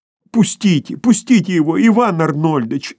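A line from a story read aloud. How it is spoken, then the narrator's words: Two women pleading together. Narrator (Russian): взмолились одновременно обе женщины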